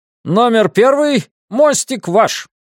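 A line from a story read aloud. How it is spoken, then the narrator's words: Shouting at full voice. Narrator (Russian): крикнул во весь голос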